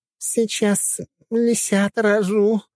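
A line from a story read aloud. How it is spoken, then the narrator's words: Moaned. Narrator (Russian): простонала Цусима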